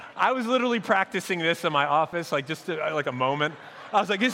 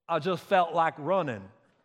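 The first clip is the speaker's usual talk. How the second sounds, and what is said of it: Bad Forrest Gump accent impression. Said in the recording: “That's like a terrible accent. ... this is so bad. ... a Forrest Gump accent ... mine is not very good.”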